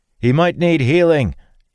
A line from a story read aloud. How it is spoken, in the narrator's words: Dalen called out